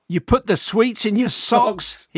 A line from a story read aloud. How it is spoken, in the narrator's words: he exclaimed loudly